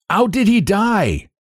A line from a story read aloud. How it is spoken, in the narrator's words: the captain shouted